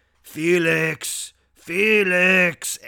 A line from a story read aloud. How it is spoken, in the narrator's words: He started growling Yusupov's name